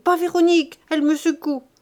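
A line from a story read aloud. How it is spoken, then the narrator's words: Shouting. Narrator (French): criait-il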